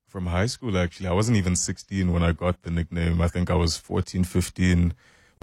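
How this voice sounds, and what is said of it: Rich deep baritone voice. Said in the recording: “You have a radio voice. ... Very rich baritone kind of voice there.”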